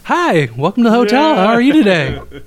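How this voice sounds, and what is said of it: Fake customer service voice. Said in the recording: “My customer service voice is quite different ... your fake ass voice”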